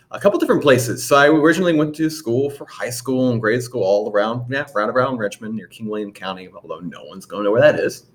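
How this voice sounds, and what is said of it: Slight country Virginia accent. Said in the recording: “you'll probably hear it in my voice at some point. I may be a little bit more country than some other people here”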